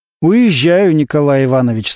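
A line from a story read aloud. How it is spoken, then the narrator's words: Plain. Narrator (Russian): сказал Немирович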